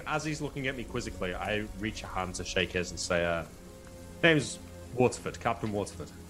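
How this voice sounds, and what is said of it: Posh English accent. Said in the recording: “your accent sometimes is hard ... You have a very ... Posh accent ... Oh, yeah, very posh ... Very posh, yeah.”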